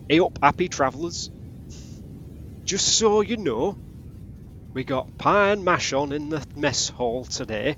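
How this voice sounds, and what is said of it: Reads message in character's accent. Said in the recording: “you read it in his accent”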